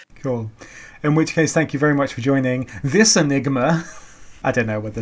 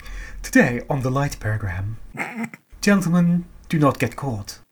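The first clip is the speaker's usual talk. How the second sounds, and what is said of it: Put-on RP announcer accent. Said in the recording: “I lost my RP accent there. I'm sorry.”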